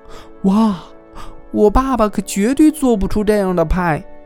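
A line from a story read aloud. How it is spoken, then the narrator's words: Amazed exclamation. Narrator (Chinese): 杰米 惊叹道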